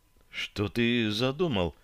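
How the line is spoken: Girl's whispered question. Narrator (Russian): Шепотом спросила девушка

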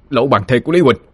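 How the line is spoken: Villagers crying out. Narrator (Vietnamese): Đám dân làng kêu lên

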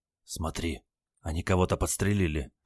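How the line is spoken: Anxious whisper, grandson. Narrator (Russian): тревожно зашептал внук

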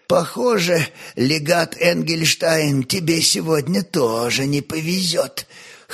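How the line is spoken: Hoarse, aloud. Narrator (Russian): хрипло проговорил вслух церковный трапезит

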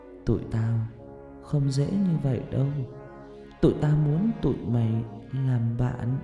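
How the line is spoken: Whisper into ear. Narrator (Vietnamese): miệng nó sát vào bên tai tôi thì thầm

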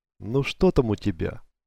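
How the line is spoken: Gloomy question. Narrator (Russian): хмуро спросил

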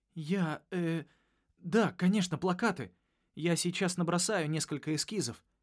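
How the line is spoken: Flustered babble. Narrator (Russian): пролепетал я

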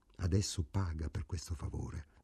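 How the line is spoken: Quiet undertone. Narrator (Italian): Ida disse sottovoce

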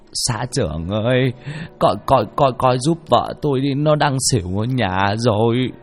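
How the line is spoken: Distressed, on the verge of tears. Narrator (Vietnamese): Ông Lộc khổ sở, mếu máo

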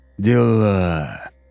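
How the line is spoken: Remark with long sigh. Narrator (Russian): протяжно вздохнув, заметил Гамлет

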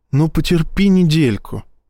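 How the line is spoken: Sympathetic sigh. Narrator (Russian): сочувственно вздохнула Ива

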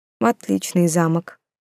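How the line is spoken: Gloomy. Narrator (Russian): мрачно подытожила я

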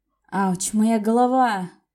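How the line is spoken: Groggy groan. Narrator (Russian): простонал Коста, наконец-то приходя в себя по-настоящему

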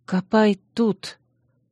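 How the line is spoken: Whisper. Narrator (Russian): прошептала я

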